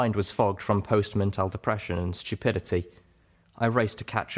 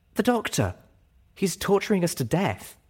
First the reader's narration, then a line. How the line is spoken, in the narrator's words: told me urgently